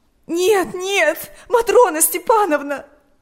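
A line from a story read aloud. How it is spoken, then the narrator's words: Sobbing. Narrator (Russian): рыдала Ирина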